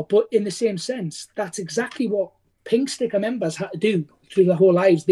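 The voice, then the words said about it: Broad northeast English accent. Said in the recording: “got a very broad northeast accent from where I am in the UK”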